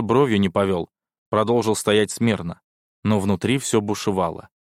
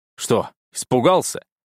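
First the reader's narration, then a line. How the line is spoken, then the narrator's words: Short laugh. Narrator (Russian): хохотнул адмирал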